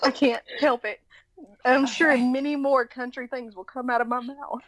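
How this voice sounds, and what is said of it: Southern US accent. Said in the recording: “Southern accent ... people are like, sweet Jesus, she's from the South”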